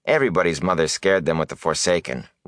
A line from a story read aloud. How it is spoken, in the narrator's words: Rand said dryly